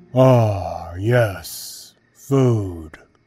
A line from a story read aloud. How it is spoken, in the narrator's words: he replied in a heavy, dull voice